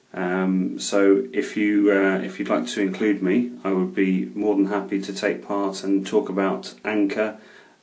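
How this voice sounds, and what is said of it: English accent. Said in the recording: “As you can probably hear from my accent, I'm from England”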